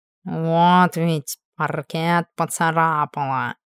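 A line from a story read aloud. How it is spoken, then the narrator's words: Snorted. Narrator (Russian): Фыркнула Эльбандита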